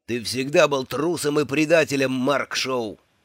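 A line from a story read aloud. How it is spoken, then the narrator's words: Growled. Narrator (Russian): зарычал Эйлвард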